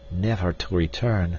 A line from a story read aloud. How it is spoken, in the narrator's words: muttered D'Arnot